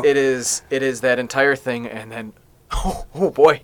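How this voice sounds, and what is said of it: Emotional voice cracking. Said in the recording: “I'm getting emotional right now ... you heard my voice crack”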